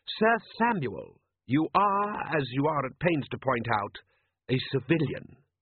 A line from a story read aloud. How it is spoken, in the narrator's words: said Rust